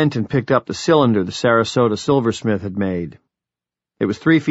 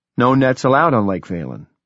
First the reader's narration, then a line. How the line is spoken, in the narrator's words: I said